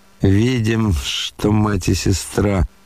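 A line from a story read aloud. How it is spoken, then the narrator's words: Through gritted teeth. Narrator (Russian): процедил сквозь зубы Рогожин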